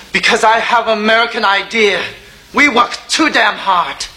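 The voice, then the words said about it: Put-on American accent. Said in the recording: “talking American?”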